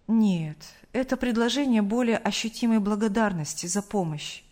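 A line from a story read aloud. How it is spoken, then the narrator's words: Calm answer. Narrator (Russian): спокойно ответил Сергей Павлович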